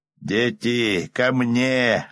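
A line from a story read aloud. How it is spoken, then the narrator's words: Yelling. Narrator (Russian): заорал один из них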